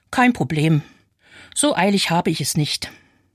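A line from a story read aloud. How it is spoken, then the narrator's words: Very calm. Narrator (German): sagt ganz ruhig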